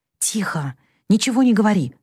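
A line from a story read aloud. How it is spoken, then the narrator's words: Whisper. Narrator (Russian): шепнула она Джо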